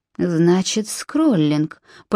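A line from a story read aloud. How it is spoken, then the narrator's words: Muttered. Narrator (Russian): пробормотал Нимрод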